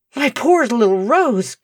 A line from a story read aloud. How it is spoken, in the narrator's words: gasped Mr